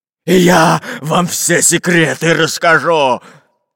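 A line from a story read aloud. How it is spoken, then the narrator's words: Growling fat captain. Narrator (Russian): рычал толстобрюхий капитан Буль-Буль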